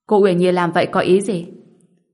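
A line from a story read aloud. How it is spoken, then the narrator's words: Stern loud voice. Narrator (Vietnamese): sắc mặt Linh Hồ Đức Nhân liền nghiêm lại, lớn tiếng nói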